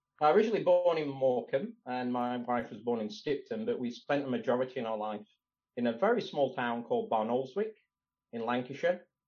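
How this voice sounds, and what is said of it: British northern English accent. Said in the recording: “has a little bit of a different accent to what you'd expect from my interviewees from Florida. But yeah, you're a Brit.”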